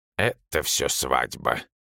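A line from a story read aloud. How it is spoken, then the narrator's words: Gloomy. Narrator (Russian): мрачно проговорил Акакий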